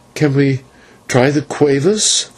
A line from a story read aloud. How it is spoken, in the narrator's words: faltered Maya